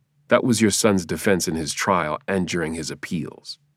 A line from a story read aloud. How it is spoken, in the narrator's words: I said wearily